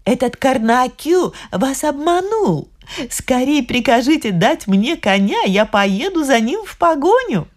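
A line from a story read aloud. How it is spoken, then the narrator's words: Laughing speech. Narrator (Russian): Посмеялась и говорит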